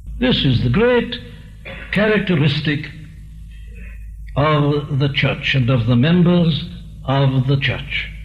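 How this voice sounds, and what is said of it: English accent, possibly hard to understand. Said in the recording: “from England. And if you couldn't understand his accent”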